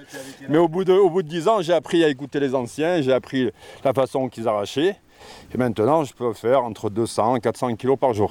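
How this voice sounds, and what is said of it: Cantal regional French accent. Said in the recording (French): “avec son accent cantalien”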